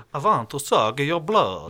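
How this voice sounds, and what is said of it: Vampire voice impression. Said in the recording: “that's a good impression”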